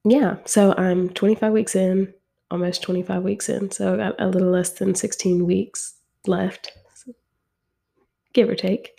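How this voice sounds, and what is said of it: Voice sounds sick. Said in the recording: “As you can tell from my voice, I'm feeling a little under the weather.”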